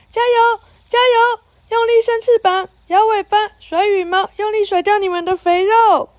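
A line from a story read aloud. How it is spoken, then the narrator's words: Shouting. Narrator (Chinese): 珍妮叫道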